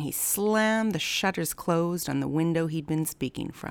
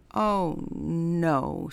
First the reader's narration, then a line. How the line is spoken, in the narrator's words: said the sister, her tummy rumbling with hunger